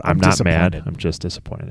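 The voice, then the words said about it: Stern fatherly dad voice. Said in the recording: “I'm working on my dad. My dad voice.”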